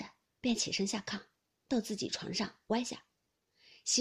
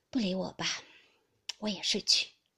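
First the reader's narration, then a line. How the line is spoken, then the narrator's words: Dejected sigh. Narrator (Chinese): 宝玉听说，呆了一回，自觉无趣，便起身叹道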